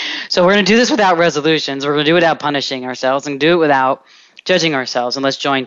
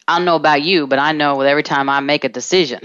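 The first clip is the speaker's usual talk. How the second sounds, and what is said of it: Speaks with a put-on accent. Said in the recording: “I don't know why I'm talking with an accent”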